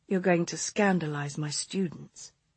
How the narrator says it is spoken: she murmured

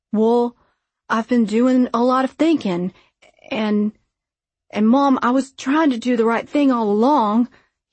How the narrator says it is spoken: he stammers

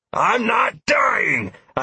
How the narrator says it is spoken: I growled

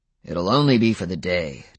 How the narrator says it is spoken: Daryl said, his voice still a little growly

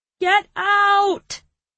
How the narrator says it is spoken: I shouted

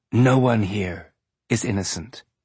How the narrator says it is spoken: Julie whispered in the back of his mind

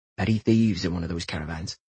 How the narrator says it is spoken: he said softly to his son

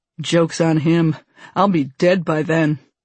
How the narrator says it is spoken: chuckles

